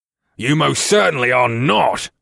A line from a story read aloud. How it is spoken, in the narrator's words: the big brute snapped